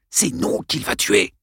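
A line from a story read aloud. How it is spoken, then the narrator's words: Hiss. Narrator (French): siffla Arlène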